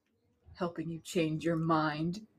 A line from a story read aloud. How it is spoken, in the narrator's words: he whispered